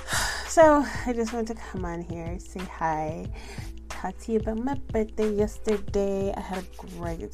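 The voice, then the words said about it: Sick-sounding voice. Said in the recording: “I'm not sure if you can tell by my voice, but I'm a little chic. A little sick.”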